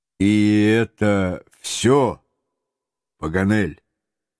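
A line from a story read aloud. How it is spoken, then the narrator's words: Calm question. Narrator (Russian): майор своим неизменно спокойным голосом все же спросил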